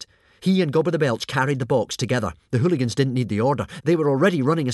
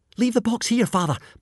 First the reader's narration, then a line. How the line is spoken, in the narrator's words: panted Hiccup as he jogged along beside his father